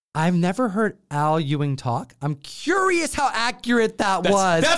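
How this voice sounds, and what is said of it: Usual voice. Nothing is said of it.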